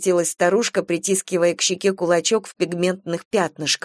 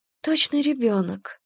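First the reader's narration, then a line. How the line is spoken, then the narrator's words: Sighing. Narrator (Russian): вздохнула Люба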